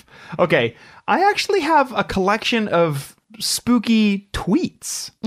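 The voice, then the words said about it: Losing voice from earlier shouting. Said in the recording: “losing my voice. ... I think it's because I was shouting flips earlier.”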